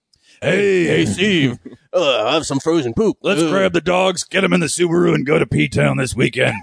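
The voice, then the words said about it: Stereotyped butch lesbian voice. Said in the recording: “is it a butch female? ... a butch lesbian sound like? Give me a...”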